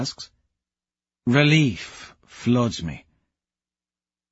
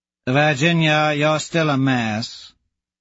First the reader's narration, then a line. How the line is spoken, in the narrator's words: Azure drawls